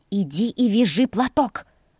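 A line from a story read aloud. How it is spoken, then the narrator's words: Growl. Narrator (Russian): зарычала на нее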